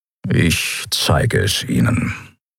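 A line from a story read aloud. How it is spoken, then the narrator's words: Grumbling. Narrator (German): brummte er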